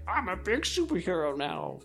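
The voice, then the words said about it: Petulant childlike superhero voice. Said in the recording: “I did that voice ... It's like a petulant child who's become a superhero”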